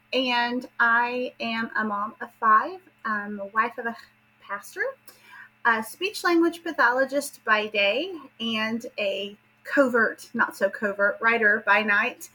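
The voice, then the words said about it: Southern Appalachian American accent. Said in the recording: “as you can tell from my accent, I am from the southern part of the United States, but particularly from southern Appalachia”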